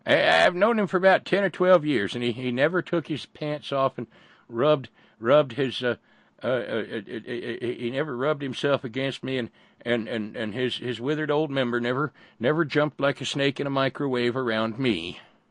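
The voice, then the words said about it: Put-on elderly lady voice. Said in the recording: “Wrong accent ... It sounds like one of the blue-haired ladies that makes your banana pudding on Wednesday nights”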